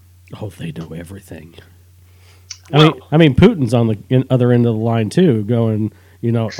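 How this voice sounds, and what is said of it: Usual voice. Nothing is said of it.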